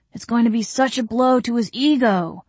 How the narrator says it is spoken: Zeb exclaimed

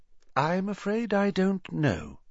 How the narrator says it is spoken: said Dumbledore, his voice gentle

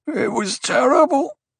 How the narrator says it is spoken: the man groaned

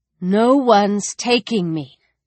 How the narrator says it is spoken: Alex said, working to keep her voice steady, but her heart was trying to punch its way from her chest

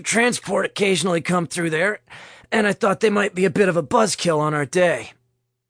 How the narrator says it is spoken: Nick said in a strained voice

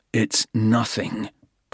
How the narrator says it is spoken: Porter growled

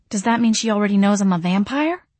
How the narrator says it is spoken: I whispered

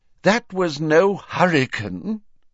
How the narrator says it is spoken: said Fudge miserably

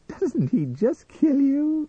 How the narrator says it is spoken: giggled

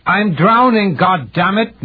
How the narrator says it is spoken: Mirsky shouted

